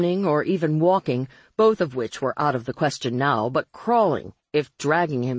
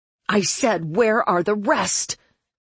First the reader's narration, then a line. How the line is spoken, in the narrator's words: she screeched